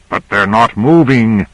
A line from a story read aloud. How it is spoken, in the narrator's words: said Carter savagely